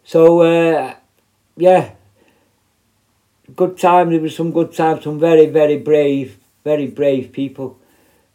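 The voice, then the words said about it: Strong, hard-to-understand accent. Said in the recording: “I hope you can understand me... But I can't change my accent, I'm sorry, I've had it all my life”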